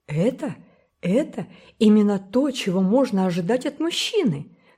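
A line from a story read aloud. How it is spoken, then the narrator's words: Flustered mutter. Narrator (Russian): растерянно пробормотала мисс Корнелия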